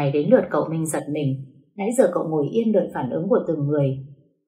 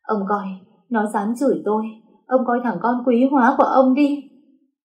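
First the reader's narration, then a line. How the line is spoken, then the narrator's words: Sobbing woman. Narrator (Vietnamese): Bà ba khóc nức nở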